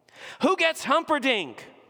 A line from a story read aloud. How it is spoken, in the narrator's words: screamed